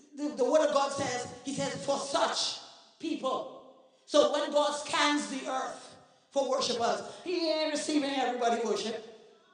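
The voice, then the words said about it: Caribbean Trinidadian accent. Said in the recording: “Let me go in my Caribbean accent now. ... Let me go Trini on you because I'm where I'm really from ... I'm from Trinidad and Tobago.”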